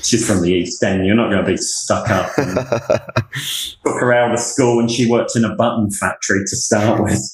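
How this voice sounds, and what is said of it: English accent. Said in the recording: “your accent there ... whenever we interview people from the UK ... there's a different accent. Yet your accent is reminding me so much of Rick Stein”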